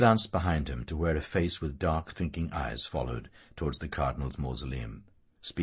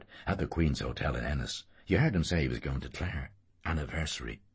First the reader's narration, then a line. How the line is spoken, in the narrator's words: Martin Cunningham whispered